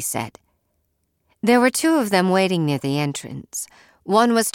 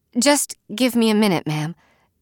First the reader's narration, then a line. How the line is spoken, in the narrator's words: I said